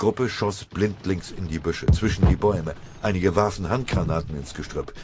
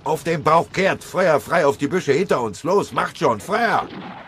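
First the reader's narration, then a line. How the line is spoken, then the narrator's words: Shouting over gunfire. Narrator (German): In das Prasseln und Knattern der Gewehr- und MG-Schüsse hinein brüllte er so laut er konnte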